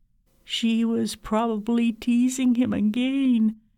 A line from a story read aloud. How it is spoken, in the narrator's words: I said miserably